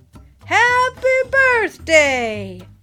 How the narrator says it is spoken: the animals all cried

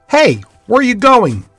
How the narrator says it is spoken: Jay called out

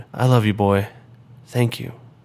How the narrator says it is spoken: The drone gently wrapped her arms around Reggie and whispered

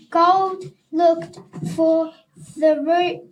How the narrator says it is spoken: yelled Nat

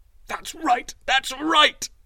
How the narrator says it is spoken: he cried

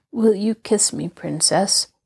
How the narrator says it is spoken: said he feebly

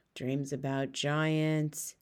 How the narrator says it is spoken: he muttered to himself

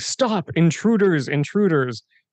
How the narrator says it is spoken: Mordai shouting

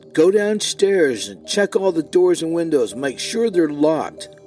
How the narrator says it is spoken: June yelled at Alan

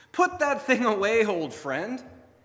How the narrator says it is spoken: Satan spoke cheerfully

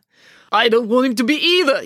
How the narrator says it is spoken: yelled Mr

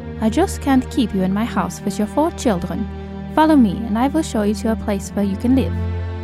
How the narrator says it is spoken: the inn's landlady curtly said to Helena

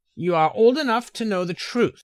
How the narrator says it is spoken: Edaba said fiercely

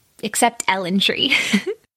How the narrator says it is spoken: added Amy, laughing

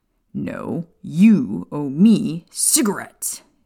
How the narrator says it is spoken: Sirius growled at Remus

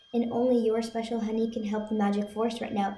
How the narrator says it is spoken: Azmina added quickly

